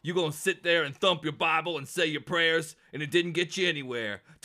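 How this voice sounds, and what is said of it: Imitates another person's voice. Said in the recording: “You did such a good impression.”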